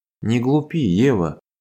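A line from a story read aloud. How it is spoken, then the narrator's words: Quiet understanding speech. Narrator (Russian): тихо сказал Иван, поняв сомнения девушки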